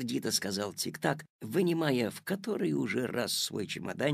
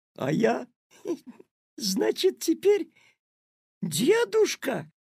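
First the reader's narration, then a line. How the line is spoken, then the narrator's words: Bursting into laughter. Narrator (Russian): расхохотался Петя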